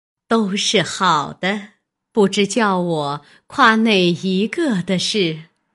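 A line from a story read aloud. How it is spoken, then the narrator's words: Laughing. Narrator (Chinese): 又笑道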